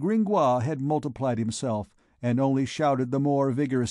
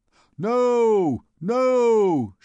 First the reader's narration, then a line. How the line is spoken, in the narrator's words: shouted all the scholars